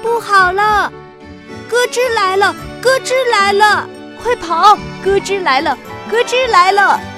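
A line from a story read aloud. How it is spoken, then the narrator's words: Panicked shouting while running. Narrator (Chinese): 他们一边跑一边大叫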